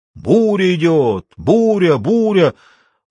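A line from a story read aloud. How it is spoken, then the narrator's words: Shrieking bird. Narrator (Russian): прокричала черная птица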